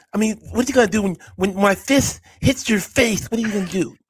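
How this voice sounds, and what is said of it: Mike Tyson impression. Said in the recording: “do an impersonation ... I can't just be Tyson like that. My mouth just doesn't form like that. ... That's not bad. ... That's pretty good.”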